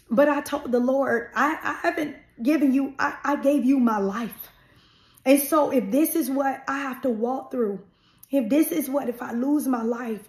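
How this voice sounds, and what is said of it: Emotional, voice close to tears. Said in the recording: “I'm getting emotional thinking about it”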